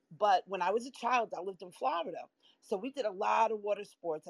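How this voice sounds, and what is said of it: New York accent. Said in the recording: “I'm in New York and I've lived here quite a while, as you can tell from my accent.”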